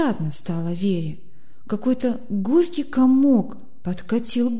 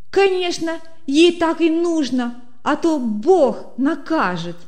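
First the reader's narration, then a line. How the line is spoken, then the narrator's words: Mocking shout. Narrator (Russian): выкрикнула Света, подзадоривая всех к смеху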